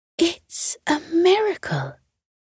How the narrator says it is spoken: whispered Beth

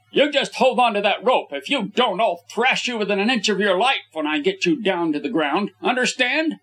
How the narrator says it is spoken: I shouted sternly

